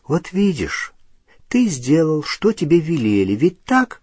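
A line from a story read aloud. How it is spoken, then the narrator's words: Gentle, affectionate. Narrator (Russian): ласково сказала Гермиона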